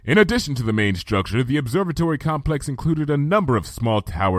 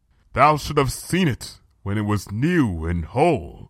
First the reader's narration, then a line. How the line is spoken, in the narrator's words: said Luna, her voice thick